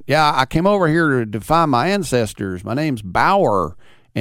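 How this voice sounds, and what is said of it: Imitated American tourist accent. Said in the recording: “he was like, yeah, and it's with this accent ... this is why people think Americans are stupid”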